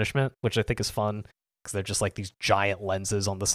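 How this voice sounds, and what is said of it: Usual voice. Nothing is said of it.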